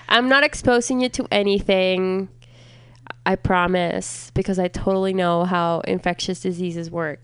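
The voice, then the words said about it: Slightly nasal, congested voice. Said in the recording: “I do sound a little nasally today ... I'm like just at the end of my cold. Like it's gone, but there's like some leftover congestion.”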